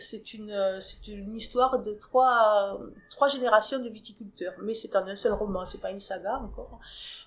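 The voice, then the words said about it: Southwestern French accent. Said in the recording (French): “Je suis originaire du Sud-Ouest, peut-être que vous l'avez entendu en mon accent.”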